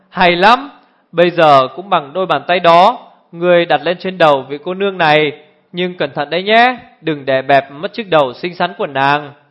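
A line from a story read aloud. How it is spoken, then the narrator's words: Laughing loudly. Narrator (Vietnamese): Nam Cung Linh lại cười to lên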